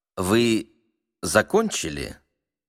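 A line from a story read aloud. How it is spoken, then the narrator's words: Calm question. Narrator (Russian): спокойно спросил Швейк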